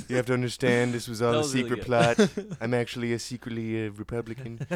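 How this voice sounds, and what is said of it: Imitated voice drifting into Dutch accent. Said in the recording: “my Donald Trump impression there just sort of turned into the Dutch guy from Austin Powers ... He has such a weird voice that it starts to sound like a foreign accent”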